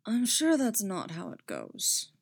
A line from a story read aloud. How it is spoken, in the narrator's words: he muttered